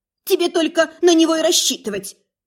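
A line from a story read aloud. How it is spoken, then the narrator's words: Sudden sharp snap, woman. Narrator (Russian): Неожиданно и резко огрызнулась одна из тувеек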